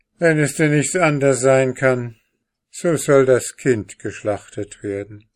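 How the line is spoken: Sighing king. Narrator (German): seufzte der König und sprach

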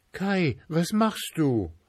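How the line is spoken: Little girl calling. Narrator (German): rief das kleine Mädchen

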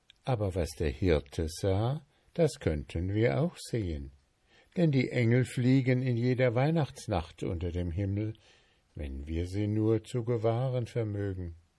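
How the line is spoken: Grandmother sighing, then speaking. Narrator (German): Großmutter seufzte sie und sagte

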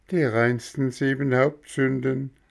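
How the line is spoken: Mocking laugh. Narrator (German): sagte Bengele und lachte spöttisch

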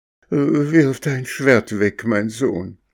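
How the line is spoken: Trembling old woman pleading. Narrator (German): ein freundliches altes Mütterchen, das mit zitternder Stimme bat

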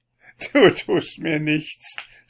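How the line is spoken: Laughing. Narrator (German): sagte lachend

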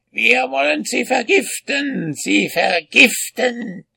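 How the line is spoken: Witches shrieking together. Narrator (German): kreischten die Hexen

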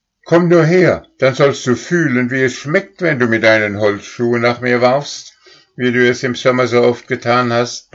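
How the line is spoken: Roaring. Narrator (German): brüllte Stern

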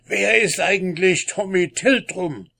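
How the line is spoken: Excited shout. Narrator (German): rief ganz aufgeregt

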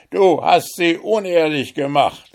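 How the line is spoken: Angry shout. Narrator (German): rief voll Zorn

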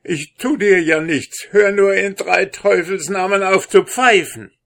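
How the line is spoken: Wailing cry. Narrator (German): fing er an zu jammern und rief

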